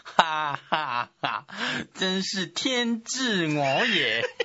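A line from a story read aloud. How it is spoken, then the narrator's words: Smug laugh. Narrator (Chinese): 陆逊得意的笑着说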